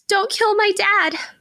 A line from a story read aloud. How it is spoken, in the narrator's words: The child cries harder, screaming